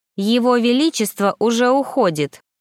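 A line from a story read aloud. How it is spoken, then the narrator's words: Loud declaration. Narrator (Russian): громко заявила я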